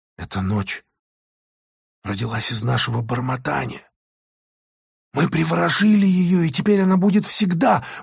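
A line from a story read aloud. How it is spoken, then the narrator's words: Sudden hurried whisper. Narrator (Russian): вдруг торопливо зашептала Алиса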